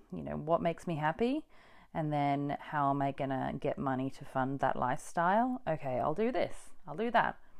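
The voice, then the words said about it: Mixed English-Australian accent. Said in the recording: “a great podcast voice ... my accent ... it's a little bit English and a little bit um, Australian. Probably mostly Australian these days”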